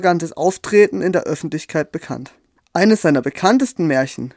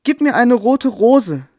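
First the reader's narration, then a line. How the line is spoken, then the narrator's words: Woman calling out. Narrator (German): rief sie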